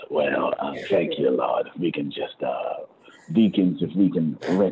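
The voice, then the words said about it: Church offering preacher voice. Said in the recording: “let me put on my giving voice.”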